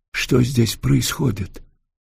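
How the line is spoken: Whispered question. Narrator (Russian): шепотом спросил Антон

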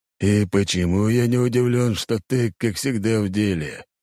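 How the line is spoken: Relieved exhale. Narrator (Russian): Князь облегченно выдохнул

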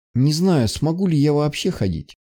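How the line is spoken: Sad. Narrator (Russian): Печально ответила она

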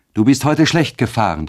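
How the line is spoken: Exclaiming. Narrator (German): rief aus

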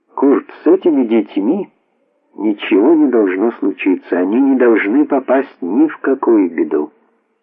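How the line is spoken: Quiet, to himself. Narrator (Russian): Зиги негромко, как бы самому себе, сказал

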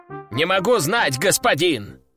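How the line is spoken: Shouting. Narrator (Russian): прокричал рогатый

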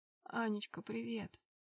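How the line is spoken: Slightly hoarse, weak male voice. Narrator (Russian): Раздался чуть хриплый и слабый, но до боли знакомый голос отца

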